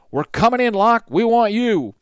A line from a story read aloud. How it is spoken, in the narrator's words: From behind a lodgepole pine, Hardin called out